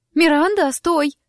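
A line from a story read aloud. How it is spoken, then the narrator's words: Sharp cry. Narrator (Russian): вскрикнула Лима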